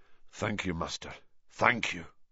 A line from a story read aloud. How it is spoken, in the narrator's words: murmured McNair